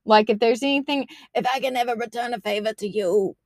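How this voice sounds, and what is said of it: Poor raspy Godfather-style gangster voice. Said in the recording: “my best Godfather impression, but it was really bad. I just sounded like I need to clear my throat.”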